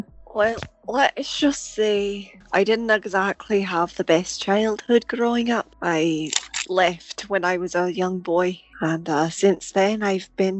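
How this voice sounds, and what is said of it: Deep, awkward British-accented voice. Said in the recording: “give it a British accent and make it kind of deep, but also kind of awkward”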